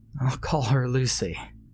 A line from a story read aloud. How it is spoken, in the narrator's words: said, chuckling to myself